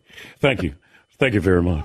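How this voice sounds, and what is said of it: Elvis impression. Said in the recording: “That was a pretty good impression.”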